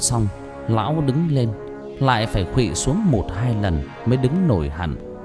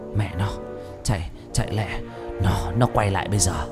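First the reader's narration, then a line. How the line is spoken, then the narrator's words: Frightened broken whisper. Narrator (Vietnamese): Tư Huyền mặt sợ hãi thấy rõ, thều thào nói chẳng thành câu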